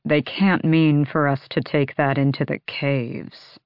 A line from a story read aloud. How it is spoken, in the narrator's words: Lorcan murmured